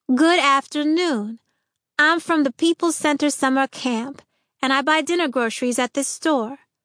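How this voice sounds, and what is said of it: Bright, cheery voice. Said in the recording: “in my cheeriest voice”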